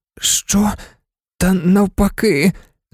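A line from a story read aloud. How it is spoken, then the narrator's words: Hoarse. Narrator (Ukrainian): сказав Гаррі майже так само хрипко, як і Сіріус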